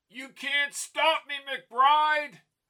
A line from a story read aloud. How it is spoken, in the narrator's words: Rheingold shouted from the engine